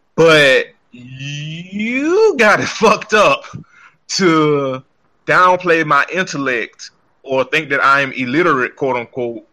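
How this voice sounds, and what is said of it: Heavy Southern American accent. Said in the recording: “I'm Southern. I'm a Southern black man. I know I have a heavy accent, a heavy voice”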